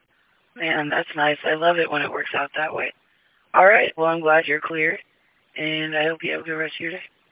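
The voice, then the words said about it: Slightly hoarse voice. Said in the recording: “You sound a little hoarse.”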